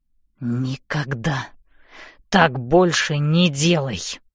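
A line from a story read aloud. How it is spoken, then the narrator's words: Hissing through teeth. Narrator (Russian): шипит он сквозь зубы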